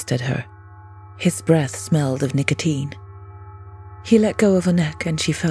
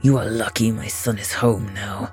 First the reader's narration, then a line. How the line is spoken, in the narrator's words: the man growled